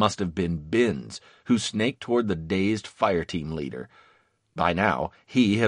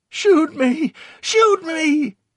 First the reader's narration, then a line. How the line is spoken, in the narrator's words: Victor pleaded